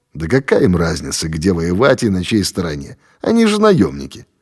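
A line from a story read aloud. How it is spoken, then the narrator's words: Dry remark. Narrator (Russian): Володя сухо заметил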